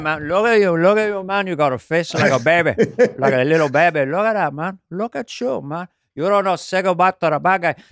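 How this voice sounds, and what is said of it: Al Pacino's Scarface Cuban accent. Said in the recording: “You know how I'm able to do Scarface when I feel like it? I say I'm doing Al Pacino's eccentric, bizarre Cuban accent.”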